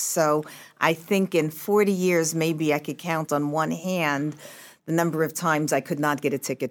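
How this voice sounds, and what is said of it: Thick New York accent. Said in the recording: “I still have this thick New York accent”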